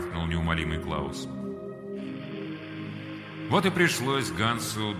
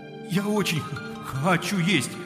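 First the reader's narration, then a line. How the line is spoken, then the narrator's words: Pleading. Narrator (Russian): взмолился Ганс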